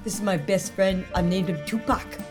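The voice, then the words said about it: Put-on New Zealand accent. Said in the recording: “incredible accent ... I'll wait for the New Zealand reviewers”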